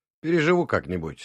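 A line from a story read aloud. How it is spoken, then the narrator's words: Calm reply. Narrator (Russian): спокойно ответил я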